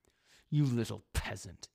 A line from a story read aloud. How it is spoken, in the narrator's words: he spat